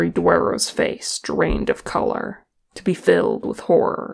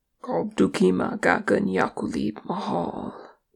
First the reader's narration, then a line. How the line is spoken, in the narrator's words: Balin murmured